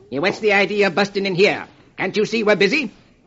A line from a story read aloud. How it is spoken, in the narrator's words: Marlowe snaps